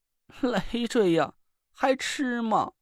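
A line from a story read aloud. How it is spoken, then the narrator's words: Doleful, near tears. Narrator (Chinese): 他哭丧着脸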